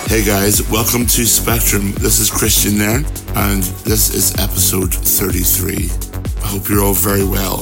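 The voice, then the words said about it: Scratchy, sick-sounding voice. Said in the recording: “I'm quite sick at the minute. As you can probably hear, my voice is quite scratchy”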